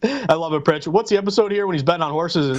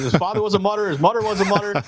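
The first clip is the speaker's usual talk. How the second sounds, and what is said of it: Kramer impression. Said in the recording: “your best impression of Kramer”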